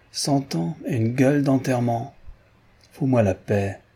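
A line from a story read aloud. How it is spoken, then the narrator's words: Sneering. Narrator (French): ricana l'arabe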